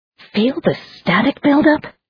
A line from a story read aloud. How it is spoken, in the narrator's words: Elizabeth exclaimed